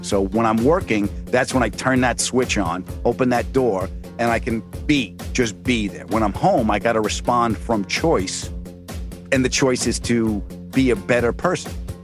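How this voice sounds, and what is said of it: Thick New York accent. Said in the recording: “thick New York accent”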